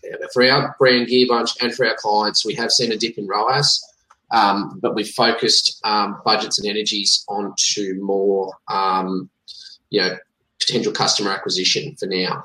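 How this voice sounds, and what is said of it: Australian accent. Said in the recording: “you have a you have an actually actually an Australian accent ... you remind me of the crocodile hunter”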